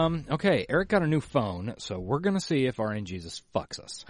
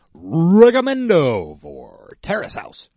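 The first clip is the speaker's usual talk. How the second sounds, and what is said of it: Announcer-style radio voice. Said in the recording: “The radio voice.”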